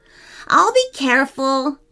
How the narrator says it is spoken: laughed Samuel

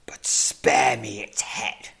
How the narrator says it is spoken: hisses the Tazzar leader

